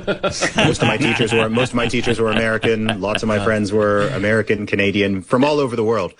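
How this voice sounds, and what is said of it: Mostly American accent, slightly British. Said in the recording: “I don't think my accent is like 100% Americanized. It's sort of maybe like 80% American, 20% British. It's just a weird hybrid international thing”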